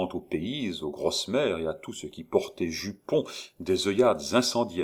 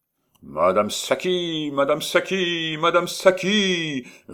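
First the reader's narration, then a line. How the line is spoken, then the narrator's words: Roaring through megaphone. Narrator (French): rugit Échalot dans son porte-voix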